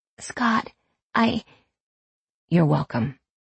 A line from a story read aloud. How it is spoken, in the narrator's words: he said quietly